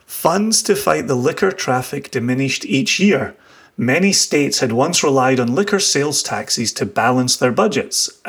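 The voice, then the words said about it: Scottish accent. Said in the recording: “You'll get to hear yourself in a Scottish accent ... It's a lovely accent.”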